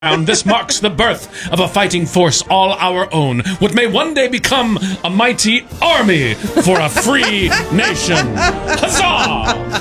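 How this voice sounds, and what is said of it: Put-on accent, dramatic proclamation. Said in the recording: “I wasn't saying my accent was good”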